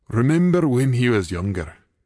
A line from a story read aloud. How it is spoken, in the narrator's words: Kevin said with a warm chuckle